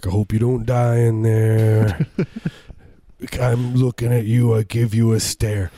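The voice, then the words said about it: Deep low baritone singer impression. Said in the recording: “good Barry White impersonation, ... I have a low voice ... nice baritone”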